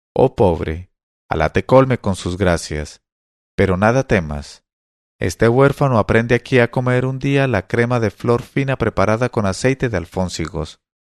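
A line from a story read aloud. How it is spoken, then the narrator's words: Conciliatory, calm voice. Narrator (Spanish): contestó a mi madre con voz conciliadora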